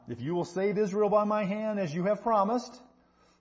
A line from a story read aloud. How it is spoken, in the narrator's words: says